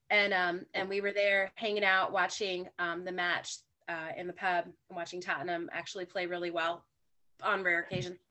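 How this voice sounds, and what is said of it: Southern American accent. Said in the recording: “how Southern my accent is”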